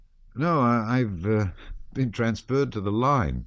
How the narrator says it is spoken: said Anatole, hardly able to restrain his laughter

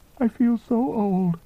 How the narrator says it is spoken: she said, sobbing

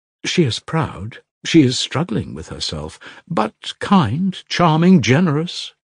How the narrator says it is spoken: she exclaimed in a half-whisper

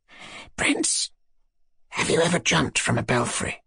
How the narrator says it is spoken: Ippolit whispered to him suddenly

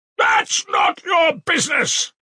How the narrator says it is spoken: shouted at last with unnatural loudness

